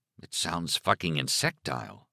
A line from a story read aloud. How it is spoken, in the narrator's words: Alan muttered